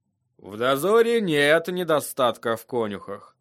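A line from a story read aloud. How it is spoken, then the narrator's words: Muttering. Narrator (Russian): пробормотал лорд Мормонт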